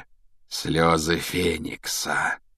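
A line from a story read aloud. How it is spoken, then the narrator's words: Thoughtful drawl. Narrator (Russian): протянул Реддл в задумчивости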